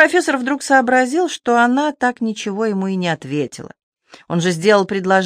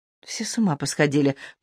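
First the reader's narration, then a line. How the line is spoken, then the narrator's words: Muttered. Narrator (Russian): пробормотала Варвара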